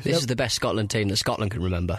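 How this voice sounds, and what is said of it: Attempted Scottish accent. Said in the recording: “You're really having a go at the Celtic nations today ... doing an attempt at an accent”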